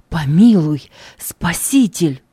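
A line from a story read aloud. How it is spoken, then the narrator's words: Heartfelt exclamation. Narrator (Russian): Слепой сердцем воскликнул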